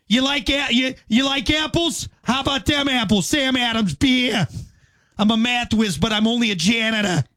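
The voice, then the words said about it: Boston accent imitating another person. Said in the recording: “A young Matt Damon with a Boston accent”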